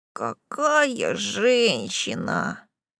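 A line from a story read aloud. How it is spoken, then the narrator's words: Dreamy drawl, little imp. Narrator (Russian): мечтательно протянул чертенок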